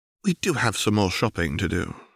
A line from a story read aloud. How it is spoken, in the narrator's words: quietly urged